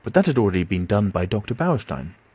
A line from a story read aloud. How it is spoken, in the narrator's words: said Lawrence quickly